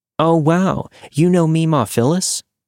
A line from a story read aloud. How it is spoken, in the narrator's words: my younger sister excitedly asked